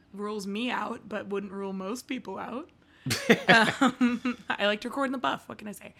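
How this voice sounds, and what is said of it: Hoarse, fading voice. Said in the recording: “my voice is going out. I'll just address it because I know everyone can hear it. I went primal screaming on Sunday and still have not recovered.”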